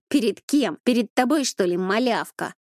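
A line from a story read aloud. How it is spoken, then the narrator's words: Angry voice. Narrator (Russian): Голос Коли звучал зло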